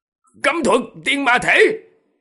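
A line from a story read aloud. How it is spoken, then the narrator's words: Low growling shout, middle-aged man. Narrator (Vietnamese): Người đàn ông trung niên kia, gầm nhẹ một tiếng, quát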